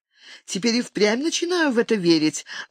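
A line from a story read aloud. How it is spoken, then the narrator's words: Happy giggle. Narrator (Russian): радостно хихикнула Бриджит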